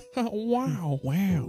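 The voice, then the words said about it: Imitates another person's voice. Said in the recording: “That's Chris Rock. ... I thought you were trying to do Owen Wilson.”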